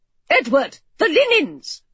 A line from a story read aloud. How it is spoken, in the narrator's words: Gran snapped